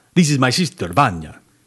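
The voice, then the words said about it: Put-on Russian accent. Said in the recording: “he spoke with a Russian accent.”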